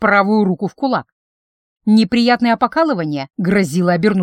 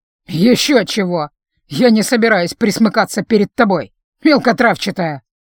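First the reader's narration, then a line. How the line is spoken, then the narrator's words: Scoffing. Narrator (Russian): хмыкнул адепт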